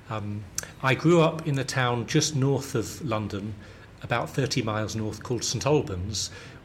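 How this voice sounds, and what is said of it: Southern London British accent. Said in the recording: “I'm British, you, you know that, you can tell from my accent. I have a very London southern accent apparently.”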